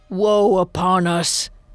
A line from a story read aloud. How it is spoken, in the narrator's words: he moaned